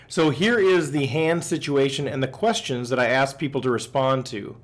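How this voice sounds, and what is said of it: Slightly raspy voice. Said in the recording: “I need to apologize for my voice. I'm a little bit rasp... my voice is a little bit off”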